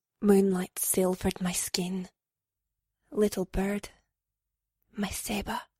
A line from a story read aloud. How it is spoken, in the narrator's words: whispered, his breath soft and warm on my neck